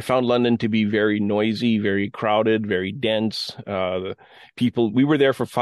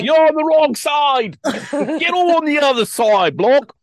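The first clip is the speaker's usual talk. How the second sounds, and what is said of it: Good impression of an angry Londoner. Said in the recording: “that was a good impression”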